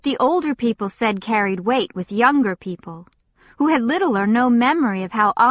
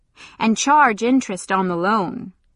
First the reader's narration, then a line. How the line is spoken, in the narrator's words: the Waylord added dryly